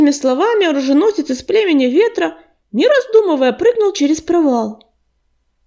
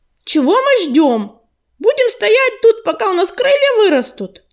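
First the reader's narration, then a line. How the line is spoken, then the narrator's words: Shout. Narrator (Russian): грачик крикнул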